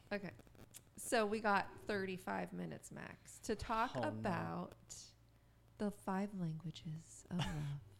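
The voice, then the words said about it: Low voice with vocal fry. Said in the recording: “You're doing your sexy voice... This microphone just makes me sound so sexy... when you do that inflection... Vocal fry, real bad”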